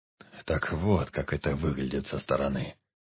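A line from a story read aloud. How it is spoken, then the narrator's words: Muttering undertaker. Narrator (Russian): пробормотал гробовщик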